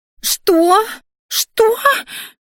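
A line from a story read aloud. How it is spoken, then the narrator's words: Shrill squeal. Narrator (Russian): взвизгнула Криштия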